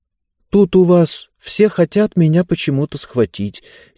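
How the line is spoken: Uncertain. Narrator (Russian): неуверенно сказала Занна

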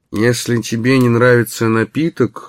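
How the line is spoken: Muffled voice. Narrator (Russian): глухим голосом произнес Эмори

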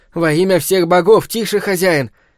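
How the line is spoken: Frightened exclamation. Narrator (Russian): испуганно воскликнул Гром

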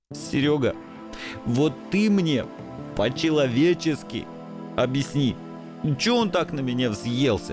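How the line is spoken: Sobbing mumble. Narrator (Russian): Все еще всхлипывая, забормотал несчастный

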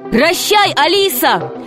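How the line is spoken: Shout. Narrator (Russian): крикнул Греко

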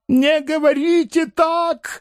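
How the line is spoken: Frightened shout. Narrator (Russian): закричал перепугавшийся Паниковский

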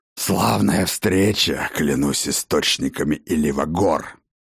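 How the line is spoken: Hoarse rasp. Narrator (Russian): прохрипел он

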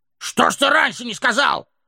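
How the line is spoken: Shouting dwarves chorus. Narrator (Russian): закричали гномы

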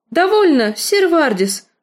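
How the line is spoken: Haughty exclamation. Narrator (Russian): свысока воскликнула Лиза

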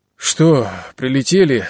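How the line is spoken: Hoarse sleepy voice. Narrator (Russian): справился он сиплым сосна голосом

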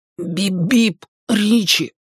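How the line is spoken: Through gritted teeth. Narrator (Russian): процедил Бен, скрипя зубами

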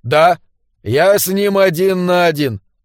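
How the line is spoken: Gloomy. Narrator (Russian): мрачно сказал сэр Эндрю

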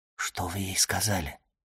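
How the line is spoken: Whispered question. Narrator (Russian): шепотом спросил Морсер

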